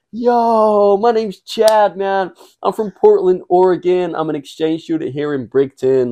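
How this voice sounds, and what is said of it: Put-on American accent. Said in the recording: “Your accent you think is I'm, on point, bro.”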